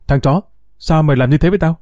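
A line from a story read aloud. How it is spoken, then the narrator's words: Calm, cold. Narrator (Vietnamese): Bình tĩnh đến mức lạnh lùng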